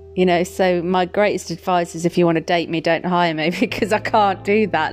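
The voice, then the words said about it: English Midlands accent. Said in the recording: “Midlands, babes. Midlands. ... my accent's really strong”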